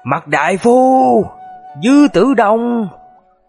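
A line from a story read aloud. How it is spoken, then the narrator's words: Angry, bitter. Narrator (Vietnamese): với điệu bộ giận dữ và thống hận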